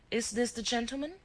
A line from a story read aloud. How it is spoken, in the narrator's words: exclaimed Rita